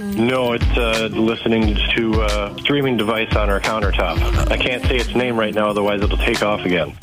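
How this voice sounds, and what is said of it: Congested, slightly sick-sounding voice. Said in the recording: “you sound a little sick. ... I am a little stuffed up”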